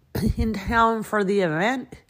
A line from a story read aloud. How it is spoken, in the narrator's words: He slurred